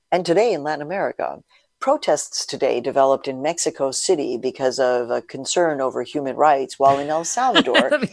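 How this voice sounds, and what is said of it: Calm public radio announcer voice. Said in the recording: “Your public radio voice. ... You know, the public radio voice.”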